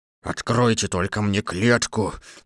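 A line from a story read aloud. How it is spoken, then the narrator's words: Lion roaring. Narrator (Russian): зарычал лев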